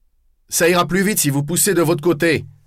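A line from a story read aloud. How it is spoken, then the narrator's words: Shouting again. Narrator (French): criai-je à nouveau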